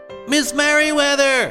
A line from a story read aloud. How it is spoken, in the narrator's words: shouted